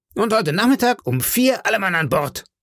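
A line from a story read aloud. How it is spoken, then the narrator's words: Calling after him. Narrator (German): rief der Squire ihm nach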